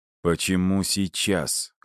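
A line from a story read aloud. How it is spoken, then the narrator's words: Cold question. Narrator (Russian): холодно спросил я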